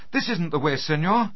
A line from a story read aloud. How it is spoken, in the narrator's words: Lucia cried out